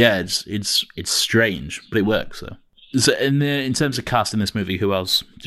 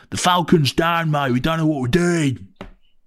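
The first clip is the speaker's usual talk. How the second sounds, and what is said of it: Put-on Cockney accent. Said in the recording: “Cockney accent. Well, you just hear this Cockney accent”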